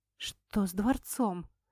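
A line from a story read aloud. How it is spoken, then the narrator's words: Mumble. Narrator (Russian): пробормотала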